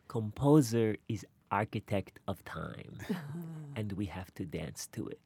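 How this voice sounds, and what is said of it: Balanchine impersonation. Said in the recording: “you do the best Balanchine impersonation ... Do the Balanchine impersonation”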